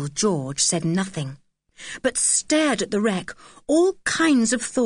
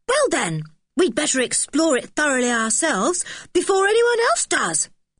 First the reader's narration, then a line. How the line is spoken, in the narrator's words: said Dick eagerly